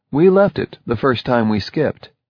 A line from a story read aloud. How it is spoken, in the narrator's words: he said